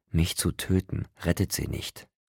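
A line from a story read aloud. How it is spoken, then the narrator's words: Calm. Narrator (German): sagte ruhig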